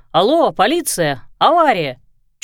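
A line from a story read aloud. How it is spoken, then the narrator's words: Shouting into phone. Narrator (Russian): Кто-то уже кричал в трубку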